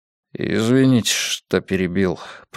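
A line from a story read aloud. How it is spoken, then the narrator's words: Mumbled. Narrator (Russian): промямлил он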